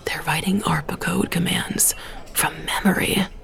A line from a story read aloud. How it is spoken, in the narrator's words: someone half whispered